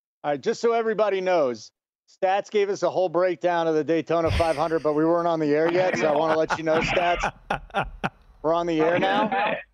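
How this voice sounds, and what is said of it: Polished professional radio announcer voice. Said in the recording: “you have that professional radio voice”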